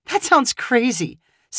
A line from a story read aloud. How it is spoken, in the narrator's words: Savannah replied with a laugh